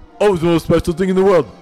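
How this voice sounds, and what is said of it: Deep-voiced Sylvester Stallone impression. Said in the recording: “Sylvester ... such a deep voice”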